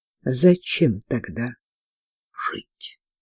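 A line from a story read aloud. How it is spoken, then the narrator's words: Barely audible question. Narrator (Russian): чуть слышно спросил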